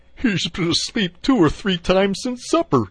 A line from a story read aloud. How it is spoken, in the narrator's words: said the Mole, laughing